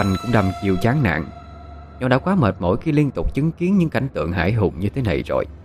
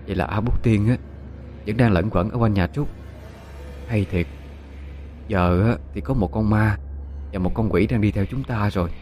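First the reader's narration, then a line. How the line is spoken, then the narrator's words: Sighing. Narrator (Vietnamese): Dung thở dài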